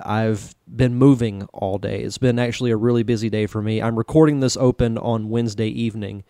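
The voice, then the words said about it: Tired, exhausted-sounding voice. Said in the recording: “I sound a little exhausted.”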